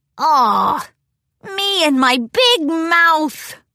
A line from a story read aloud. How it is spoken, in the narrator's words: The dragon groaned